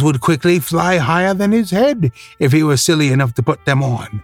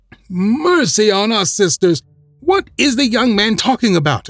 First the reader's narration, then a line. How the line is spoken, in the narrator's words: exclaimed Scarecrow, Nightmare, and Shakejoint, with great appearance of astonishment